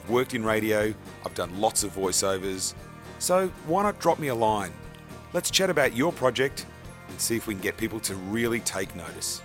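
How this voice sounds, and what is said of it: Australian accent. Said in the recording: “why not go for an Australian accent? ... I've been practicing this particular accent for just on the last 42 years, and I think I've got it just about right”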